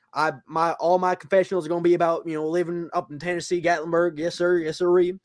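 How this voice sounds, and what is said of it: Put-on Southern redneck accent. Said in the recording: “it's a really good Red impression. ... It's just my southern accent.”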